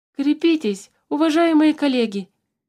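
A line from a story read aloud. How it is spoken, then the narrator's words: Shouting from behind bars. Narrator (Russian): закричал Туупань из-за решетки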